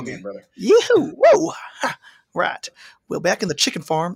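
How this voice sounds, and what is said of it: Good Southern accent. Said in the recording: “you have a very good Southern accent, by the way.”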